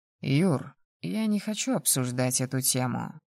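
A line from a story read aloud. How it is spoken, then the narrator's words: Calm reply. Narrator (Russian): спокойно ответил Роман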